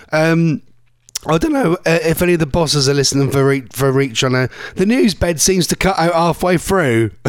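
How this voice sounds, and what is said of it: Hoarse, nearly lost voice. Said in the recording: “my voice is still gone ... I can't talk. Sorry, my voice is gone ... Oh, my voice is ridiculous today.”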